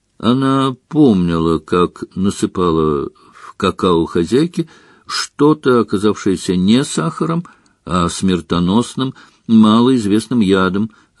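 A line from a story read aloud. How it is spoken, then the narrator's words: Plain. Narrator (Russian): ответил Дамблдор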